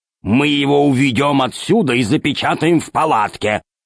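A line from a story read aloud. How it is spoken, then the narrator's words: Growling. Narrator (Russian): зарычал Громозека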